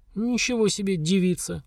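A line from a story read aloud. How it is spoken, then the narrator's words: Sighing. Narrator (Russian): Вздохнула Тирас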